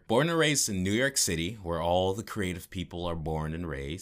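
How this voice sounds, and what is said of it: Smooth, buttery, calming radio voice. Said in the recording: “such a smooth, buttery, calming radio voice ... you have such a nice media voice”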